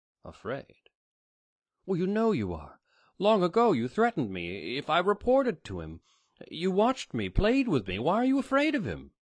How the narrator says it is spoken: The man sighed

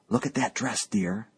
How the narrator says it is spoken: whispered

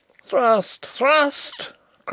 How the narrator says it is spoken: cried Rupert again

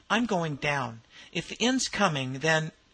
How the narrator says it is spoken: he exclaimed

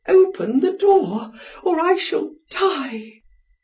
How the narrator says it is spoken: almost fainting, she cried

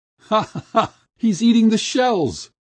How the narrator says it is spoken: laughed the crowd

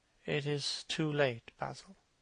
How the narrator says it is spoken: he murmured

